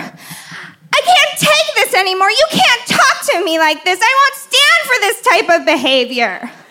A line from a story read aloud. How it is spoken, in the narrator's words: I suddenly shriek at her